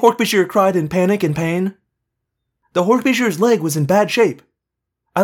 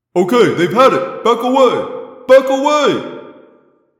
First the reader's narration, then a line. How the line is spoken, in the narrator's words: Jake yelled